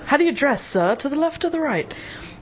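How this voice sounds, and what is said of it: Awful put-on accent. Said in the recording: “That awful accent”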